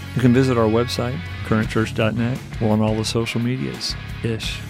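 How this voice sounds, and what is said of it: Polished radio announcer voice. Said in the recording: “This is my best radio voice.”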